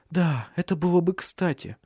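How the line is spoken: Trembling voice. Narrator (Russian): ответила Лив дрожащим голосом

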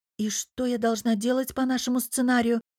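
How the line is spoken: Quiet question. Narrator (Russian): тихо спросила София

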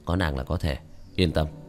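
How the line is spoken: Soft laugh. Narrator (Vietnamese): Tiểu Thất nhẹ nhàng cười một tiếng

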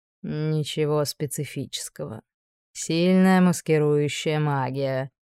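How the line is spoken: Purring. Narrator (Russian): промурлыкал Ксавье

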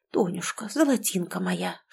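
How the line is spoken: Whisper. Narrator (Russian): шептал он

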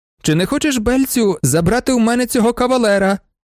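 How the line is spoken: Shout. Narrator (Ukrainian): закричала

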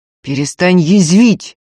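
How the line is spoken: Through gritted teeth. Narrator (Russian): сквозь зубы попросил Никита

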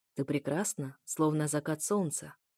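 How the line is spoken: Quiet. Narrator (Russian): тихо проговорил Эфир

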